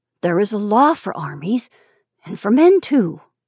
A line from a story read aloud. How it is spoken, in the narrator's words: muttered, lost in reflection